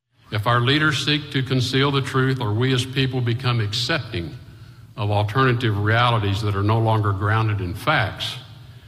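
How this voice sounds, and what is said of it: Texas accent. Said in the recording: “the Texas accent”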